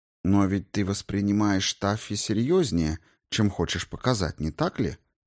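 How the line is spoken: Plain. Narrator (Russian): спросила она

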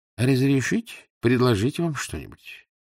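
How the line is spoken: Warm heartfelt tone. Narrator (Russian): гостеприимно вмешался маленький человечек и добавил проникновенным тоном

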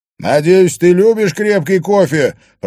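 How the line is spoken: Shouting to another room. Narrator (Russian): прокричал Харри в гостиную

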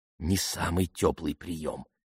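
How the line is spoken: Whisper. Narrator (Russian): шепнула Трикси

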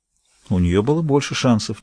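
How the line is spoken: Quiet. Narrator (Russian): тихо сказала сестра Ролф

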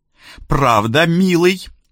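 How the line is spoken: Chuckling. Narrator (Russian): Она хохотнула

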